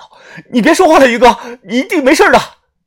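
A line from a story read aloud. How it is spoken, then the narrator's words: Loud, tearful. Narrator (Chinese): 我红着眼睛大声的说道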